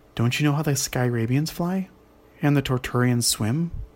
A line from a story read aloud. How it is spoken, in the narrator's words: asked Flix